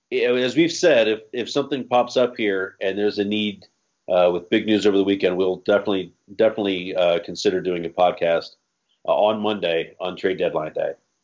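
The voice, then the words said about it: Sick, strained voice. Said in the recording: “Sorry for my voice and the constant sneezing in the background, if you can hear it. Fighting through it right now.”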